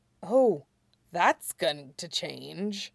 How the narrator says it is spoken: Lee muttered

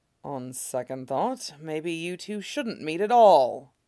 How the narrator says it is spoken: Mustang mutters

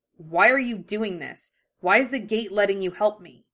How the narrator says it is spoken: his voice harsh as he asked

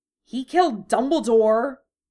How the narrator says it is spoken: Draco said angrily

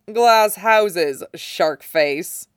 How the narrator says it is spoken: With a low laugh, says

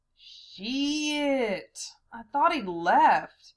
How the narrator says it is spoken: Val sighed

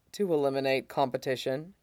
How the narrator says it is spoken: Mustang says dryly

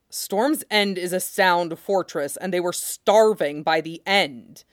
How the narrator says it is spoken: Ned said sharply

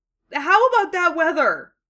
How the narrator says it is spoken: He said desperately

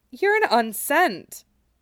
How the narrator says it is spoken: Aerith exclaimed

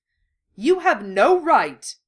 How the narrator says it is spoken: he snapped

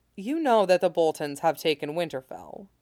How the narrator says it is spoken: he said gently

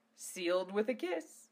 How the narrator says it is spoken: he chuckled

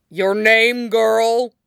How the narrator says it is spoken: barked Mr

